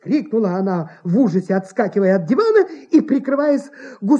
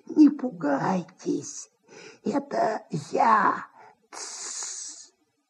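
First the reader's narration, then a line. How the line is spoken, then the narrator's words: Nasal hissing whisper. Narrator (Russian): В гнусавом шепоте, похожем на сковородное шипение, голос антрепренера Индюкова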